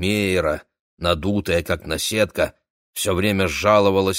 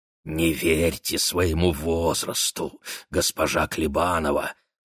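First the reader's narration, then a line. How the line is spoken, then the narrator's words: Passionate whisper. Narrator (Russian): страстно нашептывал Сойхар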